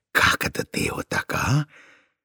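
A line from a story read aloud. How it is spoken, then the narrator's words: Whisper. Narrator (Russian): сосед этот прошептал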